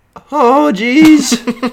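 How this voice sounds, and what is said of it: Morty impression. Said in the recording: “you do a great Morty impression”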